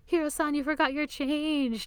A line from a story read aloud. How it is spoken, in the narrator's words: Toru shouts